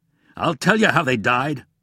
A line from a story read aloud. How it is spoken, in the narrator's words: his voice boomed out in anger